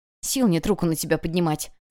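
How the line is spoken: Hissed through teeth. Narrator (Russian): сквозь зубы цыкнула мама

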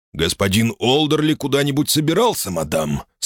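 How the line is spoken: Plain. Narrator (Russian): спросил Чифинч

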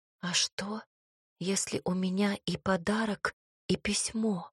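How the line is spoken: Puzzled whispered question. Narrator (Russian): недоуменно шепотом спросила

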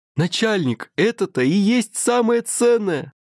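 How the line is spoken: Yelling loudly. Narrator (Russian): Орал Поликарп на весь зал

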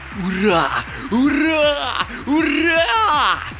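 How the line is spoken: Joyful shout. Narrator (Russian): радостно закричал Леший

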